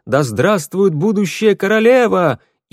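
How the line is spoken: Shout from crowd. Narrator (Russian): кто-то из толпы выкрикнул

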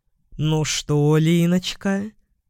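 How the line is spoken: Sarcastic drawl. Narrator (Russian): протянул он язвительно

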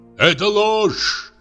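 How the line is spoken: Shout. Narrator (Russian): крикнул Урбенин

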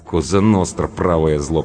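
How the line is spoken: Mutter. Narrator (Russian): пробурчала Анка

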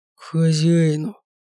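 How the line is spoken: Through clenched teeth. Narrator (Russian): сквозь зубы процедил

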